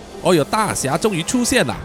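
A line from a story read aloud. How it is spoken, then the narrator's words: Shouting. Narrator (Chinese): 肥忠大喊说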